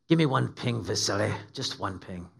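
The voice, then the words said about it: Sean Connery Scottish-Russian accent impression. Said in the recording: “Sean Connery says ... in a Scottish-Russian accent.”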